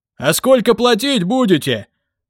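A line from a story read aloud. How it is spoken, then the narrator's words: Shouted from a crowd. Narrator (Russian): выкрикнул кто-то из толпы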